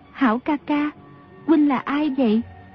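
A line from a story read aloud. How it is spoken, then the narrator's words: Soft girl's question. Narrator (Vietnamese): thiếu nữ mới khẽ hỏi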